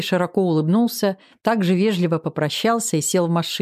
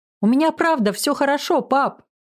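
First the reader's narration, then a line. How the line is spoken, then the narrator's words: Happy shout. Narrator (Russian): крикнула я и почувствовала себя безумно счастливой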